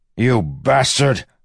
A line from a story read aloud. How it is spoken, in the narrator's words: Wax shouted toward the box